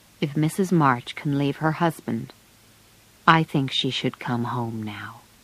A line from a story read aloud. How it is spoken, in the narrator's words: said quietly